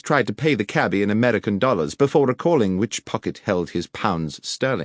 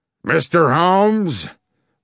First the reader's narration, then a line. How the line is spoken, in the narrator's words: boomed the American voice